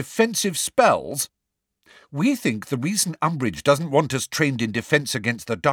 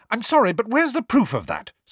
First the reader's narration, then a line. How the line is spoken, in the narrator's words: snapped Hermione